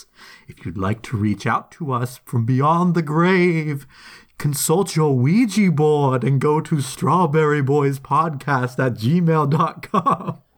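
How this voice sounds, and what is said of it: Spooky voice. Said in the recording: “I love your spooky voice.”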